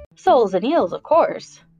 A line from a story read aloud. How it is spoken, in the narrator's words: the Gryphon replied, rather impatiently